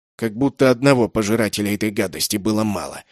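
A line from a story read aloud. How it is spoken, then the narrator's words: Grumble. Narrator (Russian): проворчал человек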